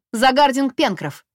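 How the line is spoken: Shouted. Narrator (Russian): крикнула Нелинья

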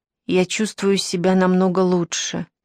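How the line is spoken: Soft. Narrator (Russian): мягко сказал он

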